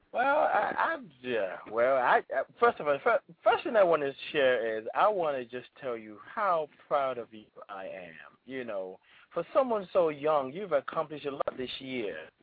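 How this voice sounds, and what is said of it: British accent. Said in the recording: “A Nigerian Brit? ... You have such a British accent, sir.”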